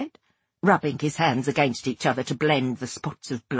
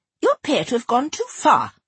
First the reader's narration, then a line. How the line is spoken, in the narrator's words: she said crossly